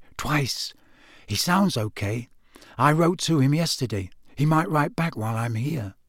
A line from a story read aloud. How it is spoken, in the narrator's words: said Harry softly